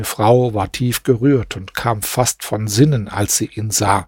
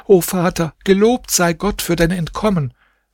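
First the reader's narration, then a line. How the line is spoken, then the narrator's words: Children shouting joyfully. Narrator (German): fröhlich, seine Kinder schrien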